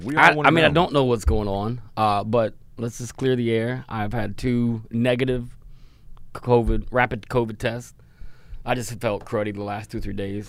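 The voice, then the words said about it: Deep, rough, gravelly sick voice. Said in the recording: “you sound like a Fraggle Rock right now ... it's my Barry White ... You got a little Barry White”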